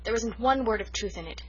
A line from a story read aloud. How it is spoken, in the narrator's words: she declared hotly